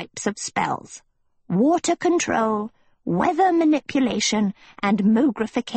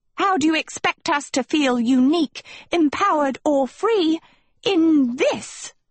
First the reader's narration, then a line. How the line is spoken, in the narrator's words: She roared